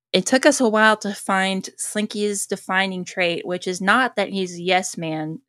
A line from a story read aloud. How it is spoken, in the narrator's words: says Bonnie Arnold